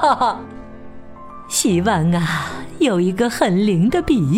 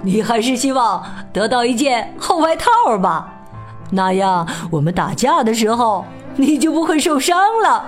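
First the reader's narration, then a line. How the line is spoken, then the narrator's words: Loud, laughing. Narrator (Chinese): 笑着大声说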